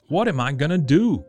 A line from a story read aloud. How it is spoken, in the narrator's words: cried Farmer Francis